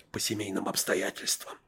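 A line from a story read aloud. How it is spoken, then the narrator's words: Habitual whisper. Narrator (Russian): обычным своим шепотом сообщила помощница секретаря Светочка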